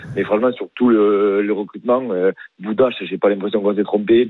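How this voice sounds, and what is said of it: Southern French accent. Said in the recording (French): “t'as pas vraiment un accent du Rhône ... j'ai l'accent du Sud”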